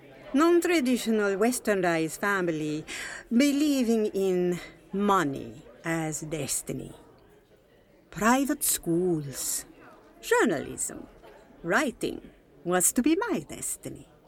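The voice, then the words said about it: Moroccan-French accent in English. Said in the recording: “Love your accent. Where are you from? ... Morocco. ... My father was French. Mother, Moroccan.”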